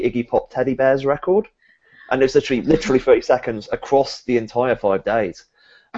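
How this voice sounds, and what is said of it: Slightly hoarse, iffy voice. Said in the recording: “I lost my voice ... So my voice is a bit iffy”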